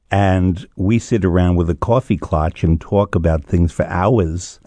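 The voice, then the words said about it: New York accent. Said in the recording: “my accent doesn't always show it, I'm from New York ... I'm using my accent now.”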